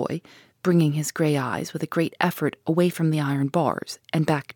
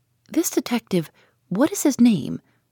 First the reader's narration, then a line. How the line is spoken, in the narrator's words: asked eagerly